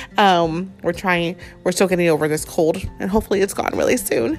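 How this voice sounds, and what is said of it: Sick, congested voice. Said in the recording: “we are still sick with the flu, so my voice is a little bit different ... if you hear coughing”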